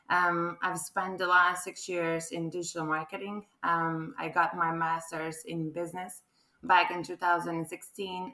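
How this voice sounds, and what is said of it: Croatian accent. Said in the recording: “as you can probably tell from my accent, I'm not quite local ... I'm actually a Croatian”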